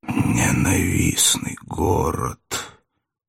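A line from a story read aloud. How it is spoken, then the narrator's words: Sudden mutter. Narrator (Russian): вдруг почему-то пробормотал прокуратор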